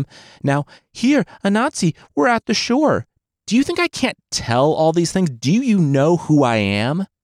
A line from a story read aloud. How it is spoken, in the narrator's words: He scoffed